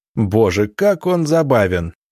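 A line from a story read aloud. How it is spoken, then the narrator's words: Laughing exclamation. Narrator (Russian): смеясь, воскликнул младший из князей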